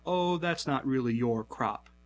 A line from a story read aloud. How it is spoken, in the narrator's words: says Hostorf